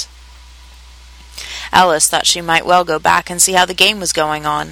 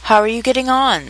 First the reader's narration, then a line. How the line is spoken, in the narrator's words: said the cat